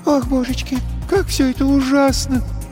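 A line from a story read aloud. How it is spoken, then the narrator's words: Sobbing. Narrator (Russian): всхлипнула Ресси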